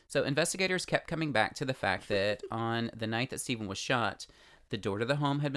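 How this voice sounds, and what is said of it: Usual voice. Nothing is said of it.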